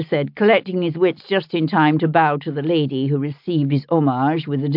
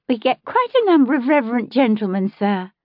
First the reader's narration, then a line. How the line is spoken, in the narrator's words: she assured him, laughing gaily